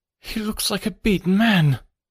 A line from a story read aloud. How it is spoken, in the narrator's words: cried Phelps